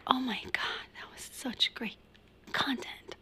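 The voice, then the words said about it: Condescending mock-gushing voice. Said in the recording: “I say content in the most condescending way ... mimicking the people that are like when we're on stage”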